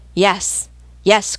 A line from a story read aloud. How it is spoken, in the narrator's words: cried the crew